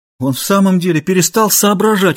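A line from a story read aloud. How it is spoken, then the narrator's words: Exclaiming. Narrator (Russian): воскликнул Лара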